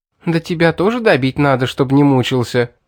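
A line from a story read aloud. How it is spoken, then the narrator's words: Angry laugh. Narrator (Russian): Зло засмеялась она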